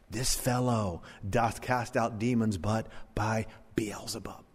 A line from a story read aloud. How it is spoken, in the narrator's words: the Pharisees ... they whispered